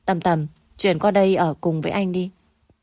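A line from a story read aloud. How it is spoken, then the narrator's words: Hoarse murmur. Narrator (Vietnamese): Rất lâu mới buông cô ra, khàn khàn nói bên tai cô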